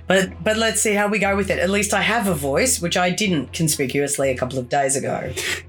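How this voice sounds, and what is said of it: Unwell, strained unusual-sounding voice. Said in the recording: “I haven't been well, which is why my voice is this very interesting tone ... you were losing your voice”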